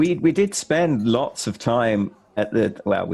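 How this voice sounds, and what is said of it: Usual voice. Nothing is said of it.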